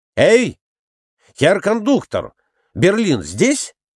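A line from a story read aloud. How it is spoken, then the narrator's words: Shouted. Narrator (Russian): Николай Иванович крикнул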